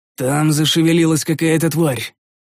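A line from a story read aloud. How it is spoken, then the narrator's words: Gloomy agreement. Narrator (Russian): мрачно согласился я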